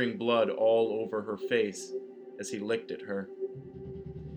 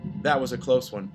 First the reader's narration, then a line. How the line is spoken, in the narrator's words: he said